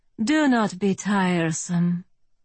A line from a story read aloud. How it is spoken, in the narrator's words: I said with a sigh